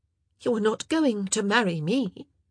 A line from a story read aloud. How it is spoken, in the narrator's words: she said, her voice sounding very strange and hollow to her ears